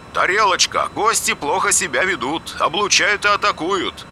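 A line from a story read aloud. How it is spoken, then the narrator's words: Loud. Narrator (Russian): громко сказал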